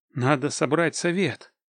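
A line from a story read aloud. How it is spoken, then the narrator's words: Muttering. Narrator (Russian): пробормотал я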